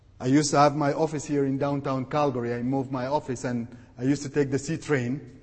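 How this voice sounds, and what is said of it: Sudanese Arabic accent in English. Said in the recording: “he noticed my accent ... I'm a Sudanese Arab”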